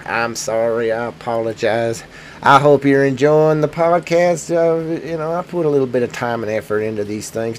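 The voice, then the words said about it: Voice affected by a cold. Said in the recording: “I got a little bit cold. Kind of hard to keep the... without sounding like I'm having phone sex with somebody.”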